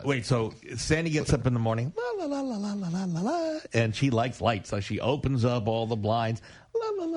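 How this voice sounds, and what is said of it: Sing-song imitation of another person. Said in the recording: “that was my imitation of my wife getting up in the morning”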